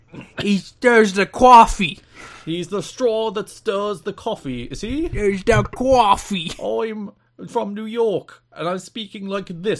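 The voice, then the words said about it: Poor imitation of New York accent. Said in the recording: “doing what is meant to be a New York accent, and I do not believe was in any way a New York accent.”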